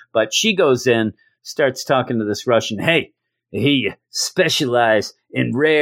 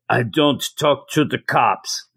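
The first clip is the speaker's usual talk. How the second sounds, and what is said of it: Put-on Russian accent. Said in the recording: “That's my Russian accent.”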